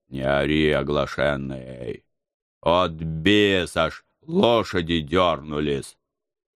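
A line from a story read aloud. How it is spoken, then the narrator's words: Grumbling uncle. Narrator (Russian): буркнул мой дядя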